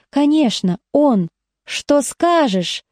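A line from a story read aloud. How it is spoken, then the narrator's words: Lisping. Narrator (Russian): шепелявит Витька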